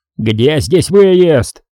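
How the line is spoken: Wild yell. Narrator (Russian): диким голосом заорал Бондаренко

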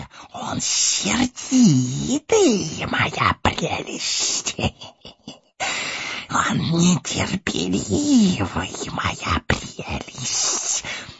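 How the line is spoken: Hissing. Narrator (Russian): шипел Горлум

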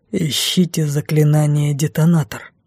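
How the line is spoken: Through gritted teeth. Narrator (Russian): процедил тот

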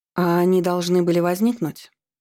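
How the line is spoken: Laughing. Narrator (Russian): Брэнди рассмеялась

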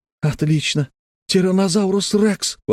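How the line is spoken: Exclaimed. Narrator (Russian): воскликнул Тим

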